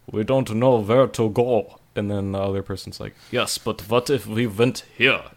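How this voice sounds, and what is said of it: Put-on accent sounding German. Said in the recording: “that's German, I'm sorry. I can't do a Russian accent.”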